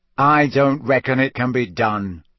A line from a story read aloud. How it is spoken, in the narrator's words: said Ron's voice flatly